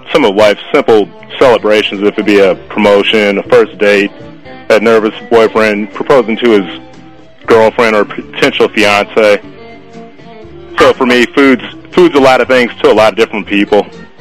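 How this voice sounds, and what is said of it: Southern American accent. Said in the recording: “your Southern accent. It takes me right back to Charlotte.”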